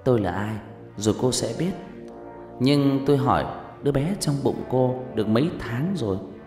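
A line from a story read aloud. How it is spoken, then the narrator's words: Mysterious voice. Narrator (Vietnamese): Linh nói bằng giọng đầy bí hiểm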